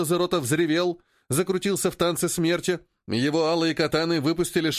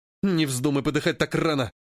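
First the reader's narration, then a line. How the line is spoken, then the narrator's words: Miner hissing. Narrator (Russian): прошипел проходчик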